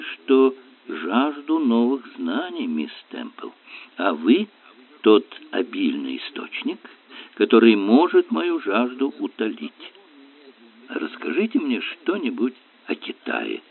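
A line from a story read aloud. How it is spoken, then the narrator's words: Soft. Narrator (Russian): мягко ответил Эллери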